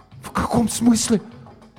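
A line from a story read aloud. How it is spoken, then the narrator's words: Incoherent stunned whisper. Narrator (Russian): Несвязно шептал Гоша, ошарашенно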